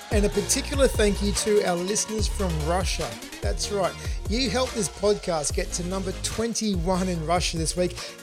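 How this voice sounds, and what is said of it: Thick Australian accent. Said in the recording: “my very thick Aussie accent”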